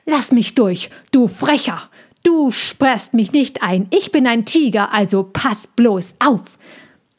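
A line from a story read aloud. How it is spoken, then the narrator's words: Hissing. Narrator (German): Tommy fauchte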